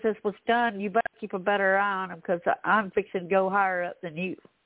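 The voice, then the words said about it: Southern twang accent. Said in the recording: “they had the twang you got ... I'm so sorry about my twang”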